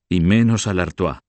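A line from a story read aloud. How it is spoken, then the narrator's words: Exclaimed. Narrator (Spanish): exclamó Gucho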